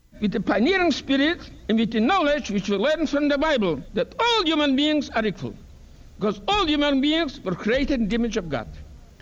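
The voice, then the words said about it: Heavy accent. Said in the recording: “He's got a heavy accent”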